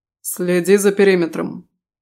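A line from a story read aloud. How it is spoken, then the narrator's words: Stern. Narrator (Russian): сказал строго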